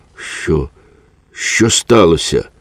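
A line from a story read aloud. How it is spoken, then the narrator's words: Weak voice. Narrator (Ukrainian): запитав кволим голосом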